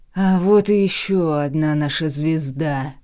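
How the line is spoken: Booming voice. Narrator (Russian): прогремел голос Мэда Бенабиуса

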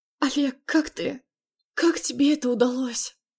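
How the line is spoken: Shaky whispered question. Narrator (Russian): Пытаясь унять дрожь в руках, шепотом поинтересовалась я

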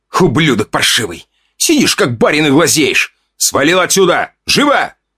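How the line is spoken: Angry hiss. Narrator (Russian): Прошипел Федя

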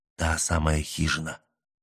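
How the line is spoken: Whispered in ear. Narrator (Russian): шепнул на ухо капралу Мэлори

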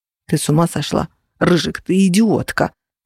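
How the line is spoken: Whisper through teeth. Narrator (Russian): сквозь зубы прошептал Феникс

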